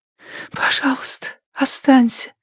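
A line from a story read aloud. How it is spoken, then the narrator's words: Female whisper. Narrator (Russian): прошептала она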